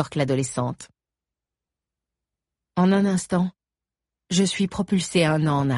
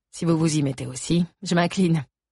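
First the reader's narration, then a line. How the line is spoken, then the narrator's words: Plain. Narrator (French): dit Frédéric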